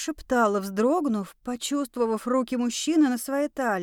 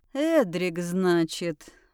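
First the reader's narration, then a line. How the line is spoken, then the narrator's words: Amused grunt. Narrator (Russian): хмыкнул он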